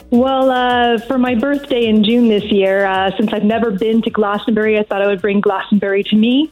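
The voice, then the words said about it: American accent, Los Angeles. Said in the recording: “What's that accent, please? ... Oh, I'm American from Los Angeles.”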